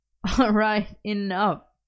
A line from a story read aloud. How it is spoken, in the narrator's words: Merlin laughed